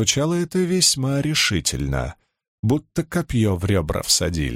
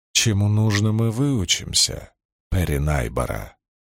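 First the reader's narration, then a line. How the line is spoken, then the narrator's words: Calm. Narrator (Russian): спокойно сказала Марлин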